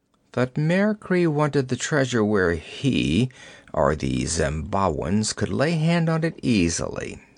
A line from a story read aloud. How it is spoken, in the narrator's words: muttered Conan